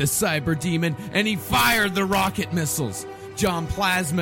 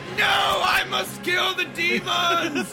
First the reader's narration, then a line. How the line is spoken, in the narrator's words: he shouted